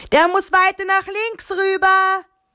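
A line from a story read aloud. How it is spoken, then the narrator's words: Shouted. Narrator (German): rief Pfarrer Eberstein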